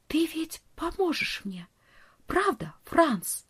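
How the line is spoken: Whisper. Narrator (Russian): прошептала

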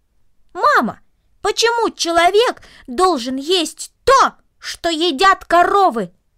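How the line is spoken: Loud raised-voice repetition. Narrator (Russian): Повысив голос, он громко повторил

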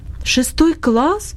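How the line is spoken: Exclamation. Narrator (Russian): воскликнула Агнес

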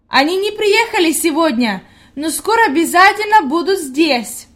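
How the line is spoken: Called out. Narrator (Russian): Хайди крикнула дедушке

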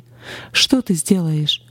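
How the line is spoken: Mocking voices in head. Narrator (Russian): смеялись в моей голове и говорили

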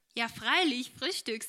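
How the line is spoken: Said with cheerful laugh. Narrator (German): sagte diese mit munterem Lachen

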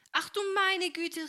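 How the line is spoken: Startled cry. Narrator (German): rief Helene, als sich das Wasser über sie ihr ergoss

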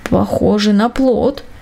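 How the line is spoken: Lazy mutter. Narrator (Russian): пробормотал он лениво

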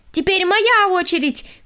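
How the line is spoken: Shout. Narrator (Russian): крикнула она

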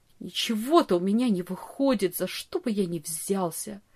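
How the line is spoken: Bitter mutter. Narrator (Russian): горько бормотал он

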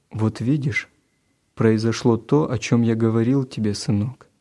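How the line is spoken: Plain. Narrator (Russian): сказал папа

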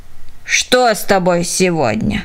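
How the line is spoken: Grumbling old woman. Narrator (Russian): проворчала старушка Потс

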